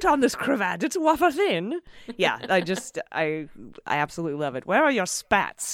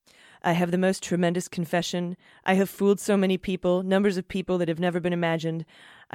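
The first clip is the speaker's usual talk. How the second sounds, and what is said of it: Imitates another person's voice. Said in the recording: “Maybe I should read it in my Donald Trump voice.”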